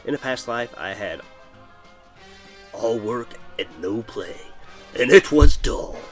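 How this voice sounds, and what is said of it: Bad Jack Nicholson impression. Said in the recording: “my bad Jack Nicholson impression”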